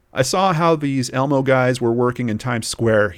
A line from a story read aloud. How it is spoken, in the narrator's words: he said